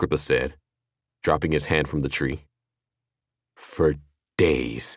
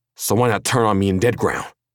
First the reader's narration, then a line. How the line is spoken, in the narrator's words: Killian snarled